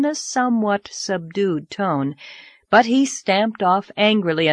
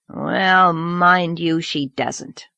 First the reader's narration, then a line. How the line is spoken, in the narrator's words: muttered Mr